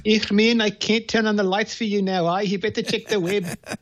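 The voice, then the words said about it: South African accent. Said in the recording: “I love it when you do that accent. ... born and raised, like Elon Musk, in South Africa.”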